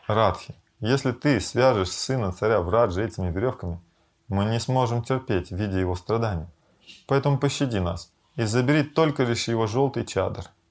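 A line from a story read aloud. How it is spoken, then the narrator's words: Laughing speech. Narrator (Russian): Нандимоки засмеялась и сказала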